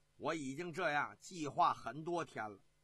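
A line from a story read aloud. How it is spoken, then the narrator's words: Laughing. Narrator (Chinese): 李肃笑着说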